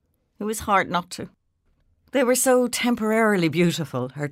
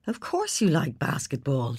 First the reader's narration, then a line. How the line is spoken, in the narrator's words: said warmly